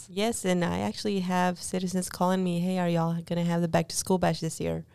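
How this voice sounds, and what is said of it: Polished radio voice. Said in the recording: “You got a radio voice.”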